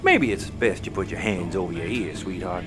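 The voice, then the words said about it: Regional accent. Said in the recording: “as I'm sure you can tell by our accents”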